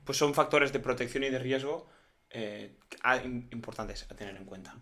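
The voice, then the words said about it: Put-on Galician Spanish accent. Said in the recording (Spanish): “acento gallego ... me ha gustado mucho el acento gallego ... se va al vasco un poco ... Es, es como muy acogedor”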